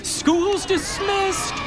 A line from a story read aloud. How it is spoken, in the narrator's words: Ichabod cried